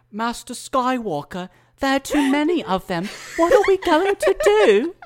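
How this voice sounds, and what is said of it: Impression of a young Jedi Padawan. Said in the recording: “the Jedi Padawan from Revenge of the Sith, who says, and I'm going to do my best impression here”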